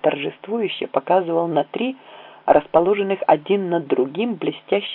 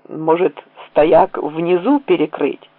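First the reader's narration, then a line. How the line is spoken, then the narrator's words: Plain question. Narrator (Russian): спросил я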